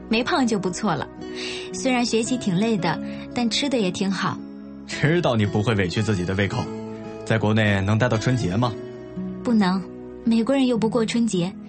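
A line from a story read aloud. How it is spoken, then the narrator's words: Faint smile. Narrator (Chinese): 何洛浅浅的笑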